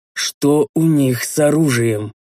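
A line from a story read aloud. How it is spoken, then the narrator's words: Slow question. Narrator (Russian): медленно спросил я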